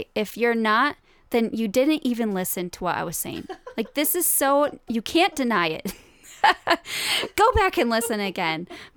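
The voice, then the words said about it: Stern teacher-like voice. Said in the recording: “My teacher voice coming out.”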